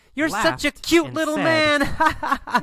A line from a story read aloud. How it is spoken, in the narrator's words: Laughs and says